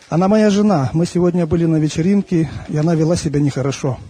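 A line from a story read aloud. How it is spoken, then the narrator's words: Plain. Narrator (Russian): ответил он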